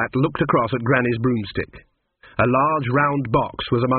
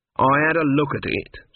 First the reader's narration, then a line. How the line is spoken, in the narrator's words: said Granny coldly